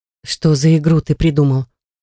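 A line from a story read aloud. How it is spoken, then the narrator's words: Hoarse question. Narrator (Russian): спросила я осипшим голосом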